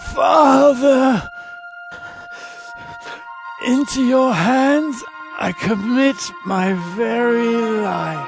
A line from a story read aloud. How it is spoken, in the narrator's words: Jesus called out in a loud voice